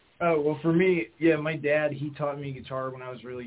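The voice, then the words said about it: Northern-ish accent. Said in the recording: “If I have a more, like, northern-ish accent”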